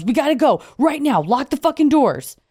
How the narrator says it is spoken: our friend Harry yells

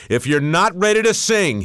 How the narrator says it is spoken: he bellowed

